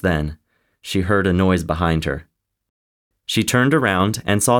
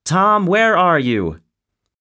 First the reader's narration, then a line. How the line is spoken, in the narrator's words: stood there shouting